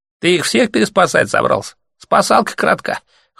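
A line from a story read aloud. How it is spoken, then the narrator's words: Scoffing snort. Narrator (Russian): хмыкнул другой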